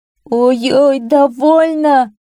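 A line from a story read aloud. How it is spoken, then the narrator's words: Pleading miller. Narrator (Russian): взмолился мельник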